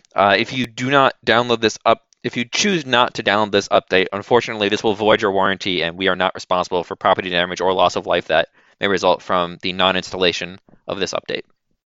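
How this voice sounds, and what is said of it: Robotic announcer voice pitched much lower. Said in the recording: “your voice changer makes your voice a lot lower”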